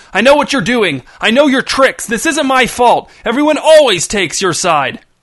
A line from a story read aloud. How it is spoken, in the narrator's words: Reg stopped screaming, his chest heaving as he tried to catch his breath